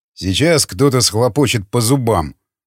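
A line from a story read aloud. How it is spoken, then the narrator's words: Grumbling. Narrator (Russian): проворчал Яхонтов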